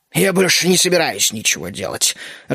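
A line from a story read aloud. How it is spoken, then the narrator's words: Irritated grumble. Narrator (Russian): раздраженно проворчал Бертрам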